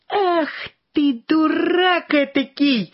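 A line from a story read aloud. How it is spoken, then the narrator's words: Old woman shouting. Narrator (Russian): закричала на него старуха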